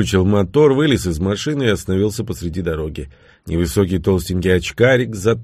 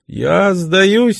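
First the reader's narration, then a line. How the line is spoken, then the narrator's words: Squeaked. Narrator (Russian): пропищал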